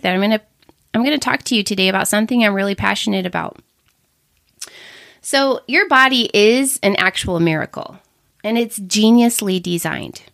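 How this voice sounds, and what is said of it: Congested, funny voice from a cold. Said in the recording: “I've got a little bit of a funny voice. I have some kind of a cold right now”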